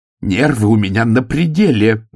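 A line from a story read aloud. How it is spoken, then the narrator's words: Howling wail. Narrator (Russian): взвыла Ангва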